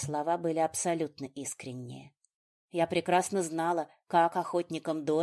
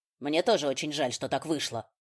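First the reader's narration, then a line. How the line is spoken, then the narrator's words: Sharp reply. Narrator (Russian): резко отозвался Риган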